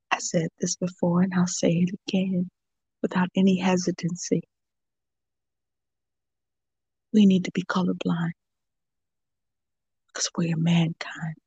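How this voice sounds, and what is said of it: Emotional, heartfelt delivery. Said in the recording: “Get a little emotional there ... the emotion came out through your poem”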